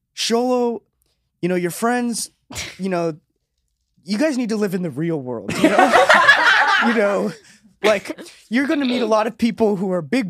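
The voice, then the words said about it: Impression of speaker's dad. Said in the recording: “here's an impression of my dad”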